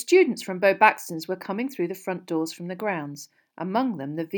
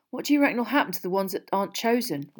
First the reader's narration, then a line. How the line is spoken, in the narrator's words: Ron muttered to Harry